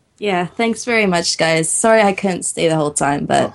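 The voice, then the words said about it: Strained, unwell-sounding voice. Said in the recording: “she is not feeling very well ... my voice is getting really bad”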